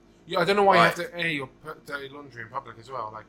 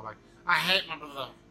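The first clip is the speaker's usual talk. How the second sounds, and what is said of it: Bad imitation Scouse accent. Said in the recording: “that was a really bad Scouse accent”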